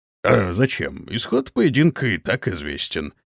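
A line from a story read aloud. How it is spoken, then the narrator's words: Mumbling. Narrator (Russian): вновь промямлил гонец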